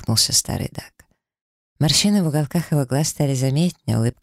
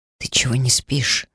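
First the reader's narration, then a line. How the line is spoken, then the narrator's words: Whispered question. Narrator (Russian): шепотом спросил Даррен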